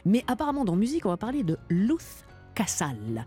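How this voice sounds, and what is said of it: Perfect Spanish accent. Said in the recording (French): “quel accent espagnol parfait”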